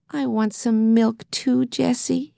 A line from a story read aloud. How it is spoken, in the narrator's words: he begged